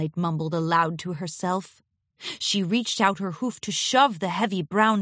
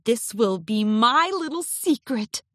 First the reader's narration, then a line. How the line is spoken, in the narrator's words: giggled deviously